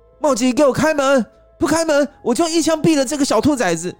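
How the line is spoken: Aggressive shouting. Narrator (Chinese): 都警的叫嚣声

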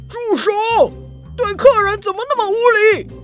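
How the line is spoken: Loud roar. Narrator (Chinese): 老板大声一吼

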